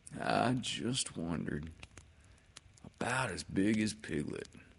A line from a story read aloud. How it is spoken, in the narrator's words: said to himself sadly